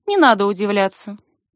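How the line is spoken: Dry, curt. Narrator (Russian): сухо говорит она

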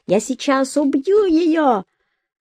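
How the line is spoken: Screaming. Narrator (Russian): соло-гитарист завопил

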